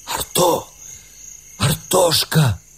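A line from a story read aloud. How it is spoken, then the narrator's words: Trembling whisper. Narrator (Russian): позвал Сергей дрожащим шепотом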